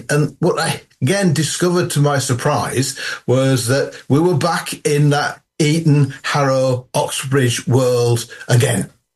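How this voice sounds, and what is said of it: Traces of a Yorkshire accent. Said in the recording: “I've still got traces of my Yorkshire accent.”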